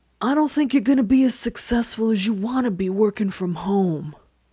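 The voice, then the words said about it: Godfather-style threatening voice. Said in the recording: “I can just only do a Godfather voice when I'm thinking of a threat”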